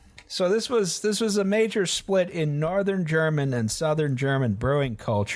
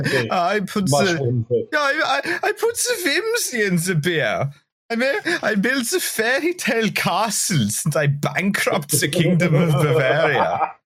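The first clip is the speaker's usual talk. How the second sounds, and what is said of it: Comical Bavarian German accent. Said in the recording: “my two types of comical German accent ... a very South German Bavarian Austrian type of vibe”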